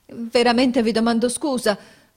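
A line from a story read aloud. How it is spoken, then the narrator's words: Confused stammer. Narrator (Italian): balbettò confusamente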